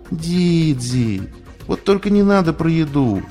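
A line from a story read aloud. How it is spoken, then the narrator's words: Pleading. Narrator (Russian): взмолилась Скуталу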